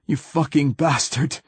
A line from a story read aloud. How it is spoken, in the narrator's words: he gasped